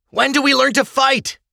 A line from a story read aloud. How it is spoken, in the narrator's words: an enthusiastic youth yelled from the crowd